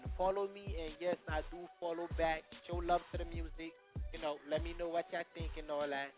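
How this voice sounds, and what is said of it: Slight accent. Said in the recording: “you got the little accent going on”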